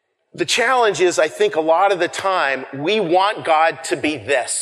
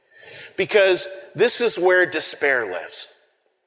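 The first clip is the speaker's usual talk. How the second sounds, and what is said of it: Big booming Darth Vader voice. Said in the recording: “In a big, booming Darth Vader voice.”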